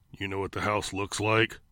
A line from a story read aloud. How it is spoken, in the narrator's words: Clown asked in a growling engine of a voice